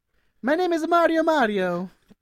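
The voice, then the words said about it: Put-on Mario-style Italian accent. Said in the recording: “Italian accent ... Just do it in your best Mario accent.”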